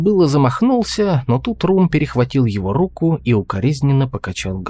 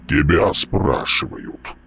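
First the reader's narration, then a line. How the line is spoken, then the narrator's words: Booming drone. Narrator (Russian): прогудел Мальп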